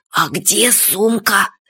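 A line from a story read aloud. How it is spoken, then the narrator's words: Whisper. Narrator (Russian): шепотом сказал Фадейка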